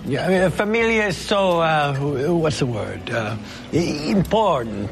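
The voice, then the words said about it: Put-on foreign accent. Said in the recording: “Why are you talking like that? ... Does your accent make you forget English?”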